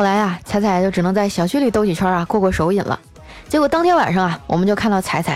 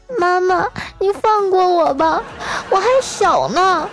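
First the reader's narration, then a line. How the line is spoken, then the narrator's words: Tearful pleading. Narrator (Chinese): 迷你彩 带着哭腔说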